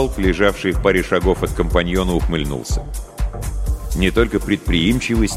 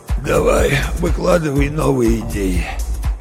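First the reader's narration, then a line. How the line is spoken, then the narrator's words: Dry-throated rasp. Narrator (Russian): Джок медленно провел языком по пересохшим губам и прохрипел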